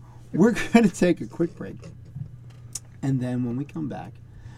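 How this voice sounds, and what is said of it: Usual voice. Nothing is said of it.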